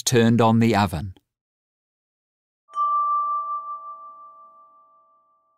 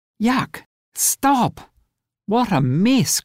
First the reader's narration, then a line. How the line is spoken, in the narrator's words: cried Rose